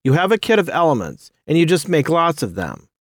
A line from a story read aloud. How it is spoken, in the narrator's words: he said happily